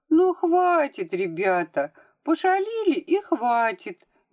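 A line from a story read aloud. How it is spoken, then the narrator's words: Calm thin voice. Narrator (Russian): говорила она спокойным тоненьким голоском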